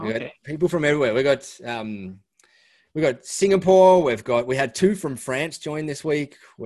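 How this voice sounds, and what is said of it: Australian accent. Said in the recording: “Even though I'm from down here... I've got the same accent as them”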